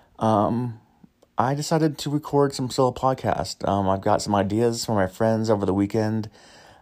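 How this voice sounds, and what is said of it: Hoarse, partly lost voice. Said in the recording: “My voice might be a little lost”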